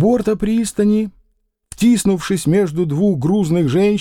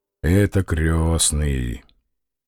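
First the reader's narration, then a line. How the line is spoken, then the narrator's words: Quiet, shaken. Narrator (Russian): он изменился в лице и тихо добавил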